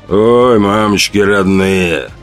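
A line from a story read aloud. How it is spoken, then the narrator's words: Loud hoarse bass. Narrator (Russian): Хриплый, как у медведя, бас заглушил нарастающий гул толпы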